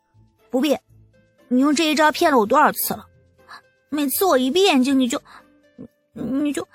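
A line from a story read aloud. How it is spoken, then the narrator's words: Shy, trailing off. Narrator (Chinese): 东阳羞得…说不下去了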